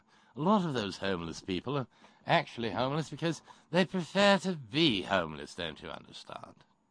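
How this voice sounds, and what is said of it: Cheesy British accent John Hagee impression. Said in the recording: “my cheesy British accent version of John Hagee down in Texas”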